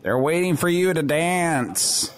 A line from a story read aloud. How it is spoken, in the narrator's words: in a strange voice, I say